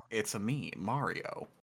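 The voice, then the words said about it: Imitates Mario's voice. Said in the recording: “That's how I would be Mario.”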